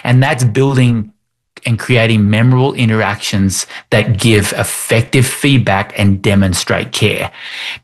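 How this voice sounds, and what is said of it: Australian accent. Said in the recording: “I'm Australian because of my accent”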